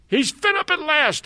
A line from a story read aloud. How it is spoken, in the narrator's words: screamed at the very top of my voice